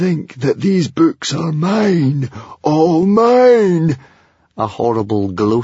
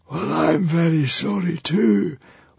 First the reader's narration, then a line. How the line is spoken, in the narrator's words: whispered the Hairy, Scary Librarian, sadly